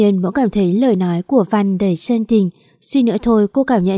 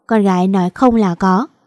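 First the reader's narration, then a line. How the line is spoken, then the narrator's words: Smiling, mocking. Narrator (Vietnamese): Vàng mỉm cười, nói giọng đầy chế giễu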